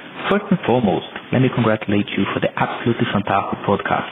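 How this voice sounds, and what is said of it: South American accent, Australian-tinged. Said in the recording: “this is a funny Australian accent ... the South American accent is something that will remain with me”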